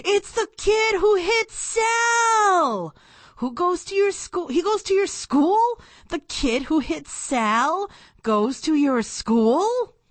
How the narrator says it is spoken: My brain started yelling

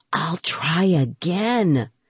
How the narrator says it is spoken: I whispered

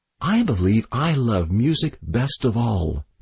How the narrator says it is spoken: the girl said dreamily

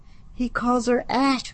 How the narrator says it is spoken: Lily hissed

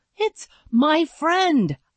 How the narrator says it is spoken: I panted

